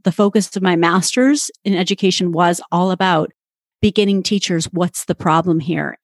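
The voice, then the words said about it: Canadian accent. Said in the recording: “You'll probably hear my Canadian accent.”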